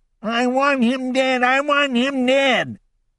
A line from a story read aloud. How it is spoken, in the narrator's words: He started moaning and crying, repeating